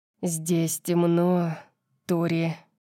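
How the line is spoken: Close growl in ear. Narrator (Russian): прорычал, наклоняясь близко к моему уху

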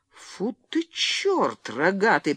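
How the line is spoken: Muttered. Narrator (Russian): пробормотал Генри

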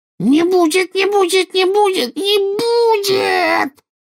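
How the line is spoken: Rising to a shriek. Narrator (Russian): Голос Кикимера поднялся до визга

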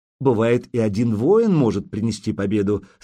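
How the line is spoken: Plain. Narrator (Russian): сказал Болеслав

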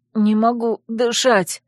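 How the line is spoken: Labored wheeze. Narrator (Russian): с трудом прохрипела я

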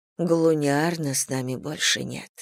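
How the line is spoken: Whisper. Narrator (Russian): прошептала я

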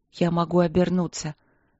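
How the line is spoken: Hoarse moan. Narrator (Russian): сипло простонала она

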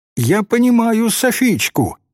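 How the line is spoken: Exclaiming. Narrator (Russian): воскликнула Тали

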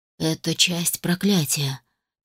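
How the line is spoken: Quiet. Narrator (Russian): тихо проговорил граф

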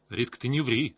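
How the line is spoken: Stern. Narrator (Russian): строго сказал я

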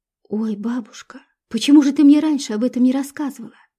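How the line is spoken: Exclaimed. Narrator (Russian): воскликнула Люба

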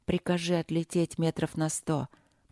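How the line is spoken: Hoarse request. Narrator (Russian): попросила Виктория сипло

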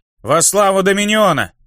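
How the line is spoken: Barking chorus of demons. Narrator (Russian): Рявкнули черти, демоны и бесы

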